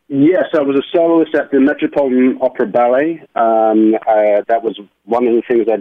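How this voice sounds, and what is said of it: London English accent. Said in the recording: “the background on the accent ... I am originally from London, England ... So that's where the accent comes from”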